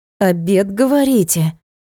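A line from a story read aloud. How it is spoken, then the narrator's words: Young lady through gritted teeth. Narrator (Russian): процедила барышня сквозь зубы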